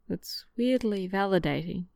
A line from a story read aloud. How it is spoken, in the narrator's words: he murmurs